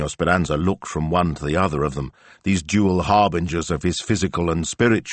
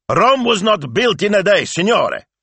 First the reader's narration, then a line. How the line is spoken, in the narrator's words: he shouted